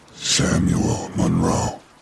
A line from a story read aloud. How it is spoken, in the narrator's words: it said, in a deep, inhuman voice